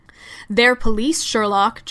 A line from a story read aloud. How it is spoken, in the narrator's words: John bellowed